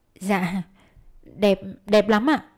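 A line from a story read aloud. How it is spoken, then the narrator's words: Hesitant stammering. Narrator (Vietnamese): ấp úng đáp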